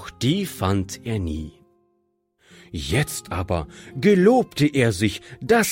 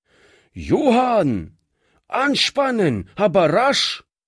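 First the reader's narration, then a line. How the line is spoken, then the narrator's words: Calling across the yard. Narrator (German): rief er über den Hof hinüber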